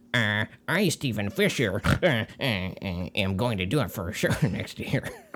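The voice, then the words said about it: Imitates another person's voice, snorting. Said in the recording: “you can do my voice really well, and I snort a lot, and you got it”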